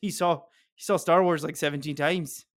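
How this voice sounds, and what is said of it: Slight Scottish accent. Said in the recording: “that got a little Scottish”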